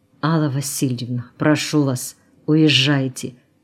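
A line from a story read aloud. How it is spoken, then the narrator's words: Whispered. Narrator (Russian): прошептал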